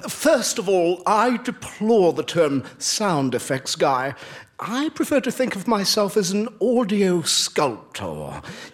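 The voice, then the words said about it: Affected English-sounding accent. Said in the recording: “your interesting accent. What part of England are you from?”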